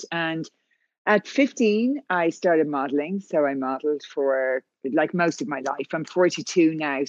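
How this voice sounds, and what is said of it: Irish accent. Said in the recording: “I'm from Ireland, as you can tell by the accent.”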